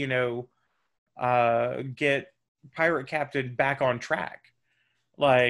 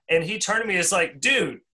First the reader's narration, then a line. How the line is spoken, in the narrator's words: I cried